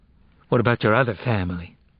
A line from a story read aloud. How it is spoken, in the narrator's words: She asked coldly